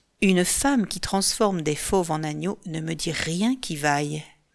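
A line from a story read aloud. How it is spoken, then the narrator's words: Mutter. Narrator (French): marmonne-t-il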